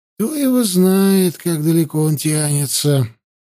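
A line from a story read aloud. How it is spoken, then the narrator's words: Grumbling. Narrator (Russian): проворчал Хаста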